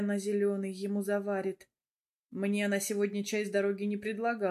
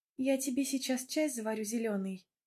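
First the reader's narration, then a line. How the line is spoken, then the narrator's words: Sweet chirping. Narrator (Russian): ласково щебечет она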